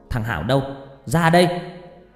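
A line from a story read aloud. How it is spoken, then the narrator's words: Mother screaming. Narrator (Vietnamese): mẹ tôi hét toáng lên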